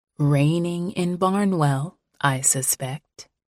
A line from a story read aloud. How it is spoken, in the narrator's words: Iris said quietly